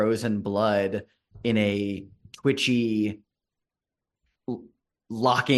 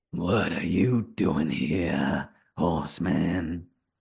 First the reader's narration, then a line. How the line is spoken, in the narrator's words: A familiar voice, echoing out of this throat, this raspy voice